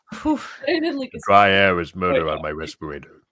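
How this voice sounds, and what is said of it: Darth Vader voice impression. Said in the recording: “impersonate ... Darth Vader ... It was Darth Vader. ... That was pretty good Vader.”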